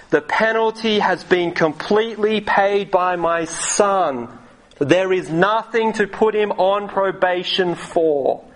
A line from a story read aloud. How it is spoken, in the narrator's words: judge shouts